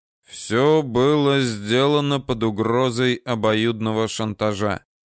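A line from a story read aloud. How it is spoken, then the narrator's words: Gloomy statement. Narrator (Russian): мрачно сказал Данияр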